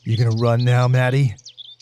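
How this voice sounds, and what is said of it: Big dumb character voice. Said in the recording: “big dumb voice”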